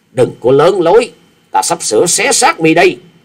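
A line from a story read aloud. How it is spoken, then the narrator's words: Shout. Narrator (Vietnamese): Kẹp theo tiếng hét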